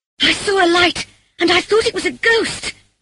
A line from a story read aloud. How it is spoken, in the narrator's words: I cried